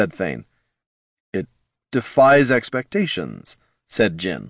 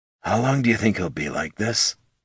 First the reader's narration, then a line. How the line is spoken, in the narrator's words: Thane muttered to Laruna